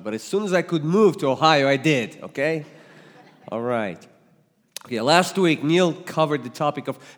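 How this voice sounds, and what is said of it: Slight Russian accent. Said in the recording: “you might detect a little accent because I was born and raised in another side of the world. I was born and raised in the Soviet Union that became Russia”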